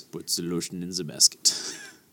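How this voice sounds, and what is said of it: Deep voice with German-like accent. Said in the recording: “all of a sudden have a German accent? ... it was a deeper voice”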